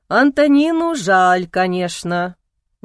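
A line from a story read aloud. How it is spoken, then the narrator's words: Sighing. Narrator (Russian): вздохнул он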